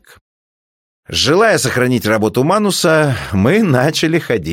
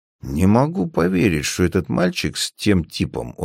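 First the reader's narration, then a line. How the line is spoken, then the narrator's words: Quiet, discreet speech. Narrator (Russian): как можно более тихо и незаметно говорил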